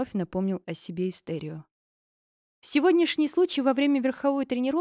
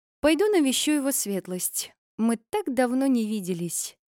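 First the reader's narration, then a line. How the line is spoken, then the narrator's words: Sighing. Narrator (Russian): Вздохнула она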